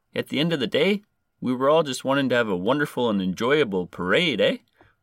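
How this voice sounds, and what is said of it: Put-on exaggerated Canadian accent. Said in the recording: “I'm trying to do a Canadian accent for this guy ... I'm changing my voice”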